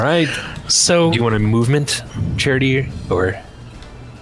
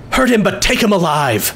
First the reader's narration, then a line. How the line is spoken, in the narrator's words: I'm going to shout